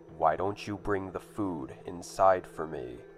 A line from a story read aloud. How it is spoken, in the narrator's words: he said, almost in a demanding tone